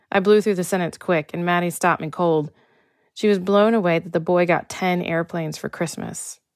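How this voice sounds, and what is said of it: Slight Texas accent. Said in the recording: “I still have, and will always have, indications of my Texas upbringing in my accent”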